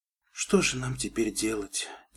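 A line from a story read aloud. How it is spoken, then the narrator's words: Quiet question. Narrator (Russian): тихо спросила пони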